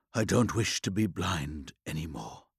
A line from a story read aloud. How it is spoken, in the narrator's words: he said in a quiet voice, his rage spent, desolation absolute